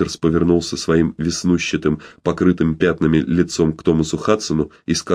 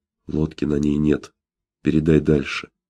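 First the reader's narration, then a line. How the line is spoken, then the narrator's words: Quiet, close to ear. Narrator (Russian): тихо проговорил Питерсу почти в самое ухо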